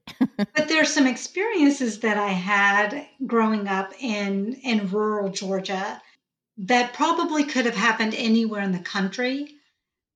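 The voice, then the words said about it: Southern Georgia twang. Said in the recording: “I have my Georgia twang going on right now”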